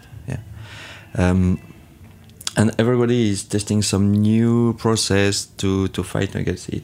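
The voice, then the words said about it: Strong non-native English accent. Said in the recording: “Sorry for my terrible accent.”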